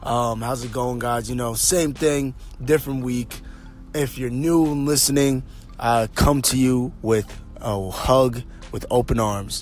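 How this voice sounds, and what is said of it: Hoarse, strained voice. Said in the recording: “My voice is a little hoarse right now ... definitely strained the vocal cords”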